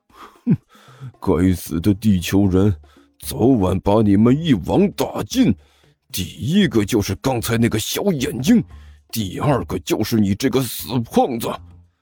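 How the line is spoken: Low muttering. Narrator (Chinese): 甘乔 低声嘀咕道

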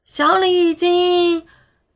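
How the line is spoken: Distant shout. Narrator (Chinese): 远处有人大声喊着

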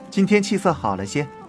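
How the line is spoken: Laughing. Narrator (Chinese): 他笑道

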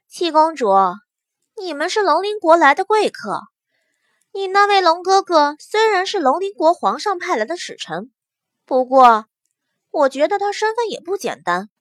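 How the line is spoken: Soft chuckle. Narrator (Chinese): 不由得轻轻一笑

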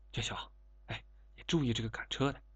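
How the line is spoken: Low voice. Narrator (Chinese): 张来低声说

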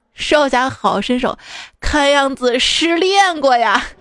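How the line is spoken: Cheerful chuckling. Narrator (Chinese): 少林方丈便笑呵呵，道

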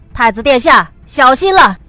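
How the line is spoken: Loud. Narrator (Chinese): 乌木齐大声道

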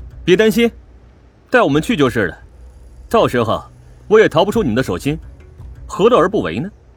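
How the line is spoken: Forced calm laugh. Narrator (Chinese): 我试着冷静的笑道

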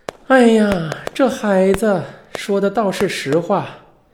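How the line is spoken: Sighing. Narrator (Chinese): 桂香听完之后叹了一口气

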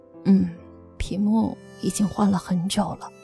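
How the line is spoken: Muttering. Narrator (Chinese): 大伟嘟囔了一句

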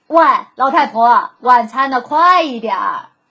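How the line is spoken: Loud shout. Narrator (Chinese): 朱先生总是大声喊

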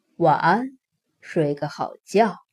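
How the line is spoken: Soft voice. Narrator (Chinese): 轻声说

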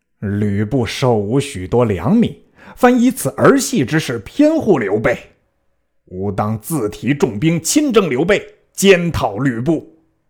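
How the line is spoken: Furious. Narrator (Chinese): 袁术大怒，曰

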